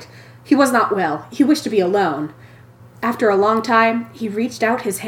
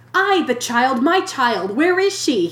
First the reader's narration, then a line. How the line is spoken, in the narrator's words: he cried in agony